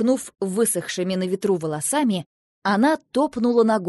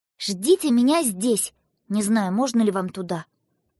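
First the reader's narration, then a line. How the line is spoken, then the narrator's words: Stern. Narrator (Russian): Она сказала строго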